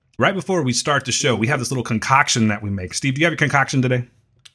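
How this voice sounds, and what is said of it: Scratchy voice. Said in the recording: “my voice is a little scratchy right now”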